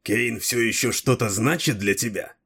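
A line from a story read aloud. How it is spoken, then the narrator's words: Jealous, through gritted teeth. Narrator (Russian): процедил Дрибок, пораженный уколом ревности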